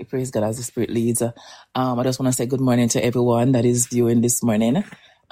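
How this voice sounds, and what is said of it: Slightly hoarse voice. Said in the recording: “I'm kind of a bit hoarse”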